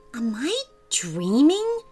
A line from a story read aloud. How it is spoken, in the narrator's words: whispered